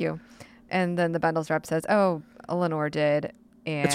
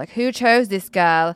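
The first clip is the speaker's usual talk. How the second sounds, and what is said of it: Put-on British accent. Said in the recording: “good British accent.”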